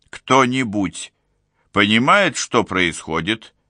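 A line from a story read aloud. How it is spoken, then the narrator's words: Deep bass voice. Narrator (Russian): пробасил укус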